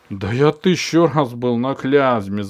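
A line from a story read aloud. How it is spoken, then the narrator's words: Loud laughter. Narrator (Russian): захохотал Попанов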